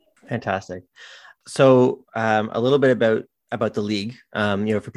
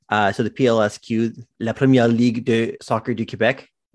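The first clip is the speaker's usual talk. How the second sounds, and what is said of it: Put-on French accent. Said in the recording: “that's my best French accent.”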